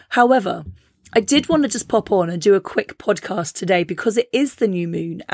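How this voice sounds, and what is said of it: Squeaky, sore-throat voice. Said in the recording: “my voice is still a little bit squeaky ... my throat was like this ... sorry if it's hurting your ears a little bit”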